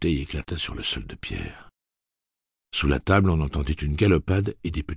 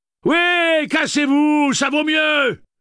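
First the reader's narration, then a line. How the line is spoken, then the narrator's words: Angry yell. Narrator (French): hurla-t-elle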